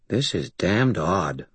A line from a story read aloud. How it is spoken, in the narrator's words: Butters muttered